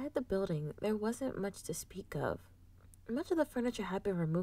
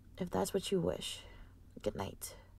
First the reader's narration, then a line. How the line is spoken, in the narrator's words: The Vog sighed before replying